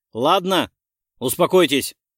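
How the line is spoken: Sharp. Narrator (Russian): резко сказал я

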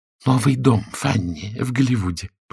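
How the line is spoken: Whisper. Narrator (Russian): прошептала миссис Торнтон

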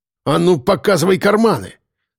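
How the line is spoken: Barked. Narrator (Russian): рявкнул Лисицын

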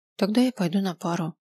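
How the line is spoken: Muttering. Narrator (Russian): пробормотал я

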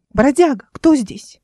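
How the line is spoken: Animated exclamation. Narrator (Russian): Оживленнее, чем обычно, воскликнула

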